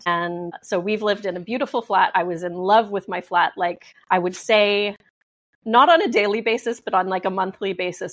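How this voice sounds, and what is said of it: Canadian English accent. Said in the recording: “So I'm Canadian. You might be able to tell from my accent that I am not, in fact, British.”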